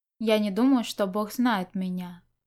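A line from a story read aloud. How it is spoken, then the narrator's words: Calm. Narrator (Russian): Он спокойно сказал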